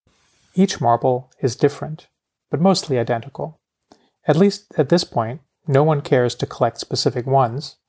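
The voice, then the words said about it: Foreign-accented English. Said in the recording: “hear me mispronounce that word with my funny accent”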